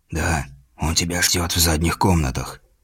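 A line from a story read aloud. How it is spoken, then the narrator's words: Whispered. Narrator (Russian): сказал почему-то шепотом привратник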